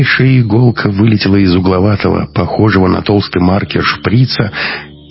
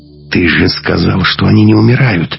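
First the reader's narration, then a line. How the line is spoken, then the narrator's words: Hissing. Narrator (Russian): зашипела Маруся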